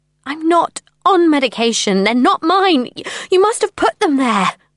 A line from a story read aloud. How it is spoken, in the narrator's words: I cried